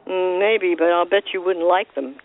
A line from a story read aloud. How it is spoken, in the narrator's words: Ken doll grumbled